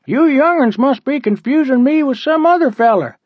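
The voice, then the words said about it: Funny put-on character voice. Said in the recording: “the guy said in a funny voice.”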